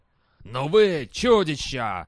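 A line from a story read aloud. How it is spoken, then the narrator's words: Shouting male voice. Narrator (Russian): крикнул он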